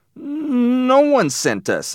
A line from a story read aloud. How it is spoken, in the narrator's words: I said nervously